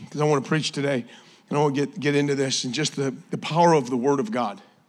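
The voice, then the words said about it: Hoarse, sore-throated voice. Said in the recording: “You're gonna have to excuse my voice. ... Last night started not feeling so great ... My wife got me some throat coat. ... It's coating my throat.”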